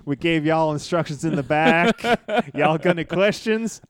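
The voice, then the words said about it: Imitated Southern US accent. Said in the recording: “When the hell did he develop a southern accent? ... where the hell did you get that southern accent, man?”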